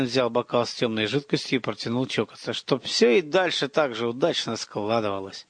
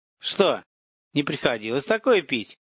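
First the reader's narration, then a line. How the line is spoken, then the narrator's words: Loud laughter. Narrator (Russian): Захохотал Филин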